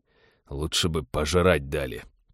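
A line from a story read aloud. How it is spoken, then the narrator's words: Grumbling. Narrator (Russian): проворчал Теодор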